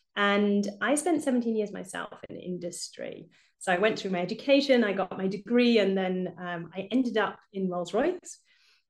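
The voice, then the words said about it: British English accent. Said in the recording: “I'm obviously British, as you can probably hear from my accent.”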